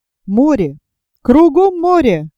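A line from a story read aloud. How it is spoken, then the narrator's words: Exclaiming in unison. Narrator (Russian): воскликнули путники в один голос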